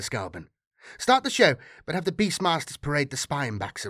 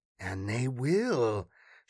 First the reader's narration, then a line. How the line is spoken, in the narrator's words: she purred